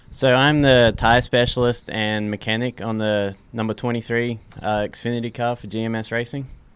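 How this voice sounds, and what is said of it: Faded Australian accent. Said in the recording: “accent. It's not the normal, probably like Southern accent ... I've kind of lost my accent by now, but I was born and raised in Australia”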